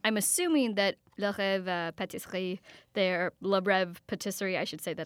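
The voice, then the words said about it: Attempted French pronunciation. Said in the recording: “Wow, you have a great accent. ... I speak poor French. ... you were trying. That was pretty good.”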